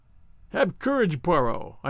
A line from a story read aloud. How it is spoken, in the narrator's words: I cried